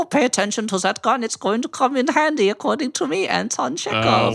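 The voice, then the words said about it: Cartoonish German accent. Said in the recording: “that's not a Russian accent. ... my Chekhov is going to sound like a cartoon German.”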